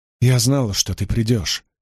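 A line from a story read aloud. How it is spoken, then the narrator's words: Breathless. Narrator (Russian): выдохнула Эгвейн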